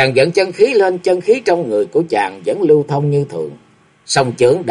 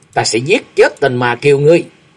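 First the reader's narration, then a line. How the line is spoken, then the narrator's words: Roared. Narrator (Vietnamese): Chàng gầm lên một tiếng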